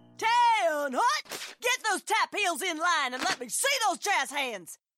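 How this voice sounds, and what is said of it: Shouting drill instructor voice. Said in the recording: “my impression of a drill instructor directing a musical”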